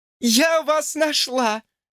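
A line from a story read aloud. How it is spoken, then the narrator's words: Laughing. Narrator (Russian): засмеялась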